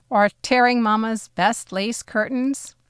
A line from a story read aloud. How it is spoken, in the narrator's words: Papa laughed